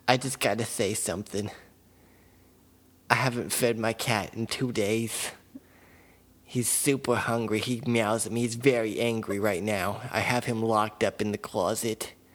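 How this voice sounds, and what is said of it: Put-on character voice. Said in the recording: “do this voice ... been doing this voice ... alternative personality”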